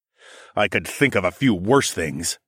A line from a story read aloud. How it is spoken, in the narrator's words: I growled